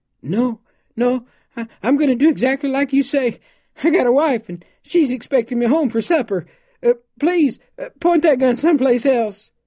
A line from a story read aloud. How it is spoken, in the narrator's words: he begged